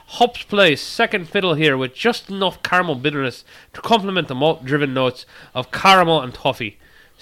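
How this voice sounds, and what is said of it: Put-on Scottish accent that drifts. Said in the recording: “I have no idea if that was a good Scottish accent or a bad Scottish accent. ... Was an accent. I don't know if it was really Scottish. ... But I think it drifted. It definitely drifted.”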